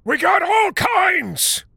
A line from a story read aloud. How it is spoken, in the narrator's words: shouted the white guy